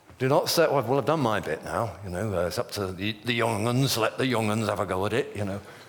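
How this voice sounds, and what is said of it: Attempted Yorkshire accent, not convincing. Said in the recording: “That's my best Yorkshire accent. I don't think it's that. It sounded more like Mandarin than Yorkshire”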